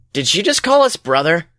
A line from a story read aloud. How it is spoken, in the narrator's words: The hero asks nervously